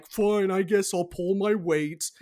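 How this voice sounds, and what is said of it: Imitates another person's voice. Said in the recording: “that was my good ... impression”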